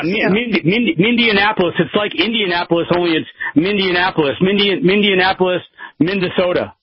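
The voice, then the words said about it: New Mexico regional accent. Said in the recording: “you sound like you're from New Mexico to me. You have this, like, accent.”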